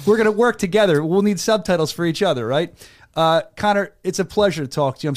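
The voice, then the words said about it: Philadelphia-area American accent. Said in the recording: “my horrible Philadelphia area accent, you can understand my horrible accent.”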